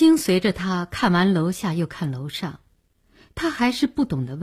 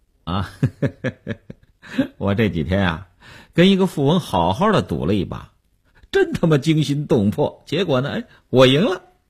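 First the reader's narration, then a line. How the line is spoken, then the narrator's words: Smiling. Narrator (Chinese): 刘文庆笑笑说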